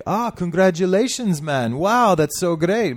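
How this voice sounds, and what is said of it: Attempted Jamaican accent. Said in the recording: “Is that like a Jamaican accent you were trying to do? ... A little bit.”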